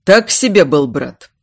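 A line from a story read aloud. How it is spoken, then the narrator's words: Snorting. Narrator (Russian): фыркнул Эйдард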